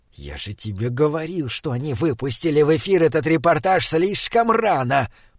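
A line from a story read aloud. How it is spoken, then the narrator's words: Hoarse thin hiss. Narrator (Russian): прошипел Высокий хриплым тонким голосом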